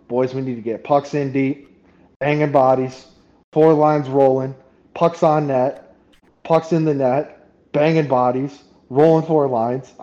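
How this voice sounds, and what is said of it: Imitated southern accent, not done well. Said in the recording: “I can't do a southern accent well enough ... in his southern accent ... saying that in a southern accent”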